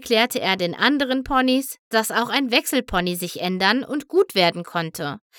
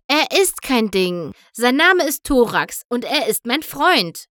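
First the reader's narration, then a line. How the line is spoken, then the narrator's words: Called out. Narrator (German): rief Spike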